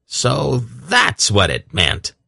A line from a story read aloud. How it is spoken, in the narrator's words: Belden exclaimed